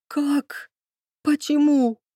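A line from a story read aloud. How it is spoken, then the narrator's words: Hoarse, stunned. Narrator (Russian): просипела, ошалела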